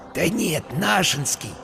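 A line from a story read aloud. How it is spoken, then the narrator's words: Whisper in ear. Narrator (Russian): шепнул ему на ухо Вася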